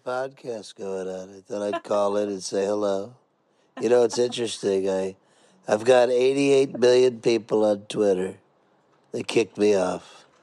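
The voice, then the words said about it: Good impression of a celebrity voice. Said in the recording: “impersonators ... giving free impersonations. Look, buddy, you did a good impression.”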